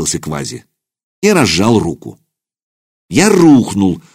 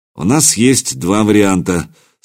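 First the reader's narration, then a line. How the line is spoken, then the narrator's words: Calm statement. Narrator (Russian): спокойно сообщил Квази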